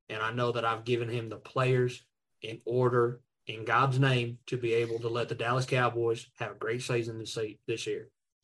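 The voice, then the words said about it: Good put-on Texas accent. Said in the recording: “That was as good of a Texas accent. It was nowhere close to Jerry, but that's a good Texas accent. ... That's a very good Texas accent.”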